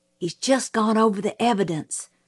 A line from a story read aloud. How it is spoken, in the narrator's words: Jim whispered